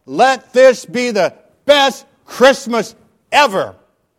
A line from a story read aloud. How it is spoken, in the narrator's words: He yelled out